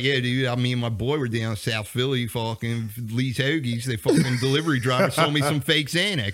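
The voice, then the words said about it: Put-on Delco Philadelphia accent. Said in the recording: “a Delco accent ... The Delco, the normal Philadelphia accent.”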